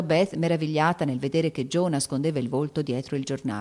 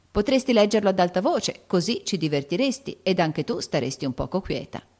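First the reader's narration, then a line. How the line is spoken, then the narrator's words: Plain. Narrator (Italian): disse Amy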